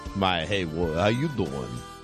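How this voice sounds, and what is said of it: Moviefone announcer voice. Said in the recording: “I've got my movie phone voice on today.”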